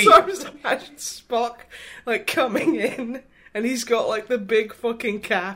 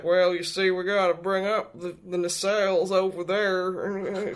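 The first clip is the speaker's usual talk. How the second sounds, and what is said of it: Put-on Southern American accent. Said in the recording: “I don't know what like accent that guy has, but I can guarantee you it's Southern American”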